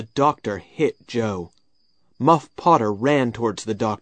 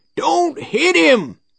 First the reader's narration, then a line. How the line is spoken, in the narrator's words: he shouted